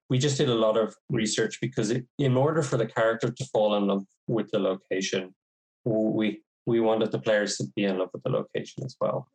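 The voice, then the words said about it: Thick New York accent. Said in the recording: “you sound like you're from New York yourself ... thick yeah. New York accent.”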